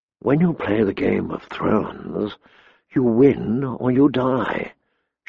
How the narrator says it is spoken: she whispered

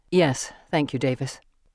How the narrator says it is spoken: Thomas says tightly

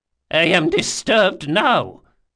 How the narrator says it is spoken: she spat

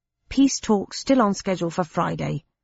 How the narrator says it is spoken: replied Pickwick

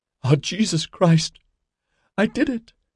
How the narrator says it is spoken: said, sobbing

